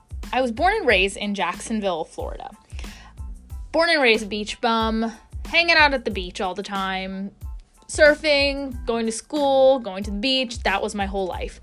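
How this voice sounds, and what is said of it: American accent. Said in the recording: “I am American, as you can hear by my accent”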